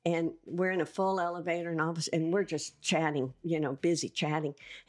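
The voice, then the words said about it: Southern US accent. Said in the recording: “like our accent ... Your accent, yeah ... They like our southern accent”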